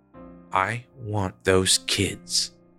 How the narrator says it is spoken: said Welling quietly

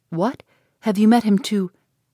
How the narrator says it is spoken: Eleanor, startled by his manner, anxiously, saying

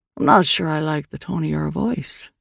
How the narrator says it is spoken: Liam said quietly

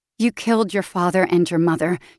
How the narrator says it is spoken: she says flatly

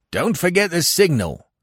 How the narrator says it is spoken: cried after me

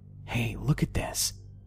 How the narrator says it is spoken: whispered

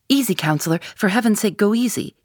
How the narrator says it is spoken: he cried

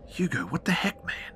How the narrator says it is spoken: I whisper hissed

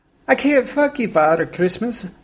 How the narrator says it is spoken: I whimpered

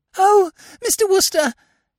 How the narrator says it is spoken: said the girl in a gasping sort of way

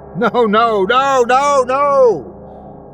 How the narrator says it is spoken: Kenneth yelled

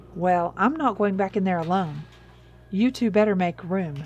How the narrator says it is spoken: Lily said

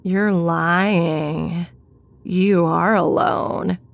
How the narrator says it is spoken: in a disgusting, almost singing voice, he said

